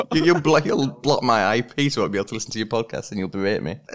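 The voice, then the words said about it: Yorkshire English accent, rising intonation. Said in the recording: “I'm from Yorkshire. I mean, do you find it easy to understand my accent? ... You go kind of like up. Yeah, there's a couple words I've missed”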